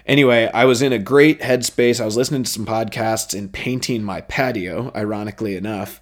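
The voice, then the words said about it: Excited, energized voice. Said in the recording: “I just started to get real juiced up. You guys can probably hear it in my voice. Really excited about this”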